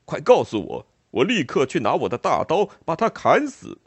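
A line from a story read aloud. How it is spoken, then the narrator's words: Giant roaring. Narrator (Chinese): 巨人吼道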